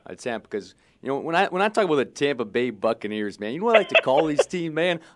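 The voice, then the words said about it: Jon Gruden impression. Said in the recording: “let's hear some Gruden impression”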